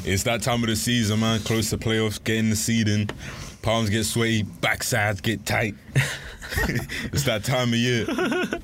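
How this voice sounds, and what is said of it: Imitates another person's voice. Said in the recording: “doing a Stephen A impression”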